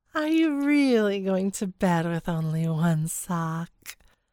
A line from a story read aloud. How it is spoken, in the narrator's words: Her words were slightly slurred